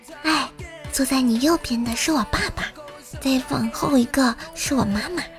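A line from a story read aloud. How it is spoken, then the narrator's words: Soft whisper in ear. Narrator (Chinese): 女孩在男孩的耳边小声说道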